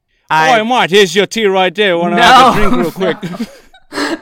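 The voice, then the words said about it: Put-on, inaccurate English accent. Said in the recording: “The probably not correct English accent ... No, that's the wrong accent.”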